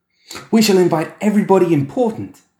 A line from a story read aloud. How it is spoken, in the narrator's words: the boy exclaimed